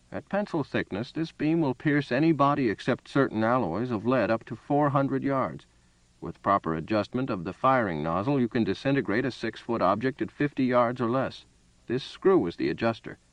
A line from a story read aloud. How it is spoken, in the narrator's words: The old man said calmly